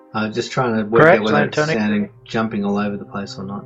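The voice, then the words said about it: Australian accent. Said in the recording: “I love your Australian accent”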